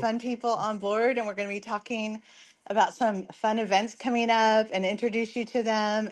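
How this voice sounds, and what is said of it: Hoarse, fading voice. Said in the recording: “I'm losing my voice, so excuse me”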